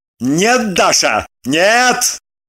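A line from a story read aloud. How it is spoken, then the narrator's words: Barked. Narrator (Russian): рявкнул Лагутин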